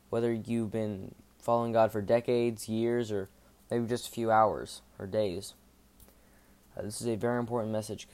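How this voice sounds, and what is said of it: Flat, monotone delivery. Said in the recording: “I sound a little monotone right now, by the way. It's 11:30 at night.”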